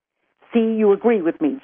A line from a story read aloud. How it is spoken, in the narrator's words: Jean snapped